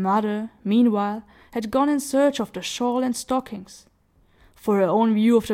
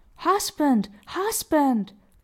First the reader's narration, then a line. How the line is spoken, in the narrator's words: cried his wife